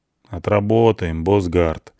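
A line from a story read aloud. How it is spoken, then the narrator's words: Gloomy. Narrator (Russian): мрачно кивает тот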